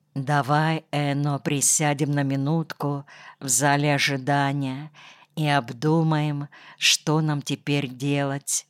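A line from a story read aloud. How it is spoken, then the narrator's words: Whisper. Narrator (Russian): она шепотом сказала Энно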